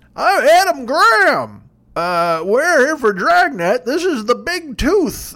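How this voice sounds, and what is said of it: Imitates another person's voice. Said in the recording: “the guy who hosts it, I'm going to try to do his voice. ... He's not old. It's not like an old guy.”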